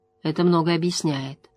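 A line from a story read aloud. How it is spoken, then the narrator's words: Quiet. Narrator (Russian): тихо произнесла Морейн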